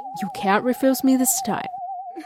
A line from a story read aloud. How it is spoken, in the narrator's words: Daniel with a triumphant smile and whispered to me